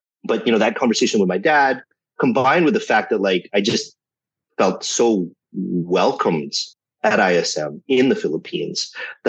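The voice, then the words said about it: North American accent. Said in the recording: “I still have very much a North American accent”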